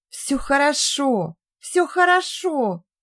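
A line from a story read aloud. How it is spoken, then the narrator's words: Excited squeal, funny mumbling. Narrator (Russian): Она взвизгнула и от избытка эмоций смешно бормоча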